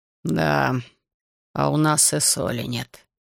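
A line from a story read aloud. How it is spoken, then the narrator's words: Disappointed grumble. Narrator (Russian): разочарованно буркнул Озелс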